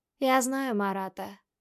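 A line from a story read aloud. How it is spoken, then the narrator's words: Calm. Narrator (Russian): произносит спокойно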